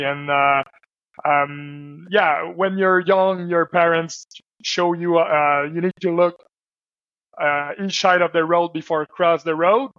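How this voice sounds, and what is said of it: Slight French accent. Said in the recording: “Usually I speak French. So that's the reason why I got a small accent.”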